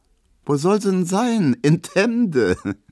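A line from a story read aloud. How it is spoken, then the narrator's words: Laughing remark. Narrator (German): meint Emma und lacht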